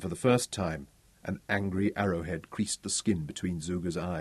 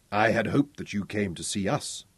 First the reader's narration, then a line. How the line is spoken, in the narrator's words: he said coldly